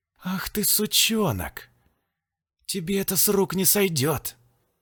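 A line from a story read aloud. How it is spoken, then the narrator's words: Vengeful hiss. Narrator (Russian): Прошипел Валентин, твердо решив отомстить обидчику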